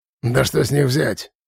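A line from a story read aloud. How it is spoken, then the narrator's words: Contemptuous snort. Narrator (Russian): презрительно фыркнул Хум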